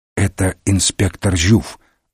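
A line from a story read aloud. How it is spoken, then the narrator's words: Whisper. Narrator (Russian): шепнул Мегре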